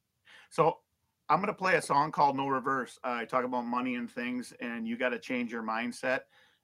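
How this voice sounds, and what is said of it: Minnesota accent. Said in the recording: “I heard the Minnesota accent... Apparently, I have a Minnesota accent.”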